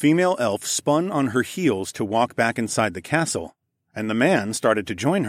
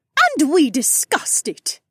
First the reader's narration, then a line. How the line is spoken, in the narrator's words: the woman spat out over her shoulder